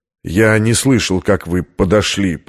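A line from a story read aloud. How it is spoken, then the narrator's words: Muttered. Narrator (Russian): пробормотал американец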